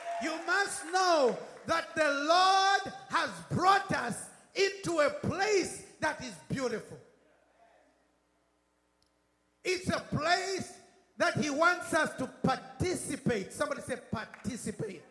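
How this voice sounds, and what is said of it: British accent. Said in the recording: “I don't know how you say it in America, but I'm British. British accent.”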